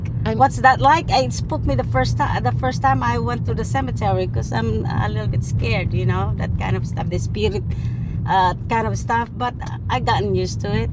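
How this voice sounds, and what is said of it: Noticeable non-native accent. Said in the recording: “So I can sell almost anything despite the accent.”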